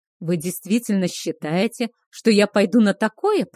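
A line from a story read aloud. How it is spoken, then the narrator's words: Growling. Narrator (Russian): прорычал Кейхар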